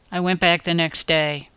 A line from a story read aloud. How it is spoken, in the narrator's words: admitted sullenly